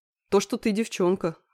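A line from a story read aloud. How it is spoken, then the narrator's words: Snort. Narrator (Russian): хмыкнул Андрей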